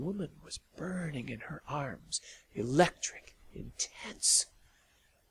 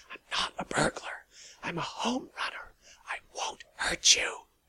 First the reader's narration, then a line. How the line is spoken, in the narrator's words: whispered into her ear